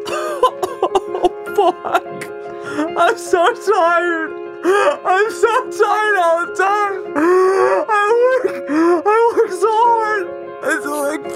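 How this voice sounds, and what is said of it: Exaggerated silly whiny voice. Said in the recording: “I'm saying it in a stupid voice,”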